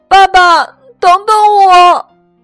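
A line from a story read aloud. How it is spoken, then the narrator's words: Crying out. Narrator (Chinese): 我哭着叫道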